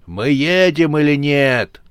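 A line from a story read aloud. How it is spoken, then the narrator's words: Irritated distant shout. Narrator (Russian): раздраженно кричал с подножия холма рогатый демон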